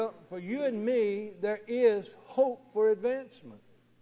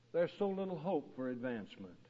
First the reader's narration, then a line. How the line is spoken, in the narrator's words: gives a sigh and concludes